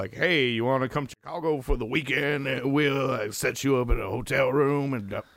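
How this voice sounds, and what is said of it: Arkansas tow-truck driver character voice. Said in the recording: “character voice ... That was a great character voice ... the producer also drives a tow truck in Arkansas”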